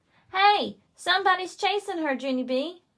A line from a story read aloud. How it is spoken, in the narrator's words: she yelled